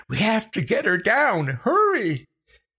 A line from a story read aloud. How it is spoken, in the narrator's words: Becca shrieking